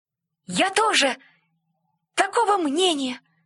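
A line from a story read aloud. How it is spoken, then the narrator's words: Cheerful squeak. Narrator (Russian): пропищал Красный, который был самый веселый из всех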